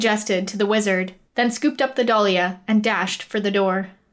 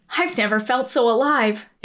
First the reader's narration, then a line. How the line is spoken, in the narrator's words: exclaimed the boy